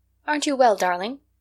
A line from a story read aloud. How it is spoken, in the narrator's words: inquired Katie anxiously